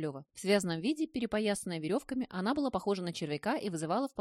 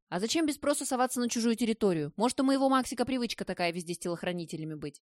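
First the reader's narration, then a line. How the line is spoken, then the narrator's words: Babbling. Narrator (Russian): Пролепетала Кораблева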